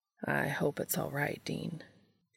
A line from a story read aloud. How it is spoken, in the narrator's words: he said quietly, looking unsure